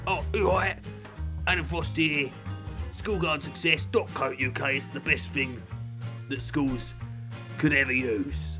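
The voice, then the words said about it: Imitates another person's voice. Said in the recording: “that was an impression of him ... that's me doing an impression of him”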